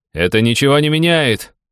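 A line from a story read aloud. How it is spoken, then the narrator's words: Shouting from above battlefield. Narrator (Russian): крикнул я ему в ответ, сидя на спине Гаврюши, который завис над полем боя в нескольких метрах от земли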